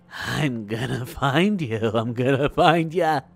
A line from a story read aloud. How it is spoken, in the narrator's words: Through laughing, the boy quietly repeated